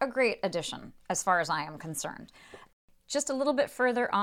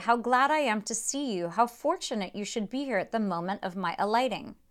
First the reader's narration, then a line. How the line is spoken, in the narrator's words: exclaimed he